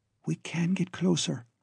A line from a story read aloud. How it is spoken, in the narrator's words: Glora whispered